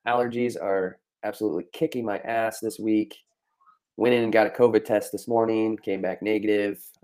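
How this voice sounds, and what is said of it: Stuffed-up congested voice. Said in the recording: “I sound stuffed up,”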